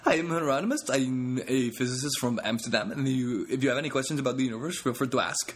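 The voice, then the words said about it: Imitated Dutch accent. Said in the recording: “an accent, a Dutch accent.”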